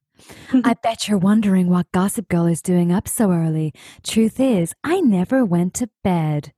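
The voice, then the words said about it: Gossip Girl narrator voice. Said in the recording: “my best Gossip Girl impression”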